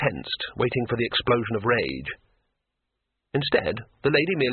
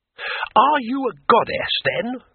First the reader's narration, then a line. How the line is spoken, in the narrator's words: said Twoflower, excitedly